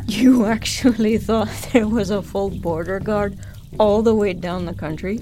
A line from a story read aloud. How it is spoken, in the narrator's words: Zonta exclaimed, that laugh of hers ringing out